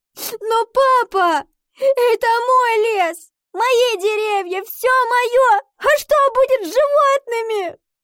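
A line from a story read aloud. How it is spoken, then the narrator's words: Sobbing. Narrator (Russian): рыдала Ива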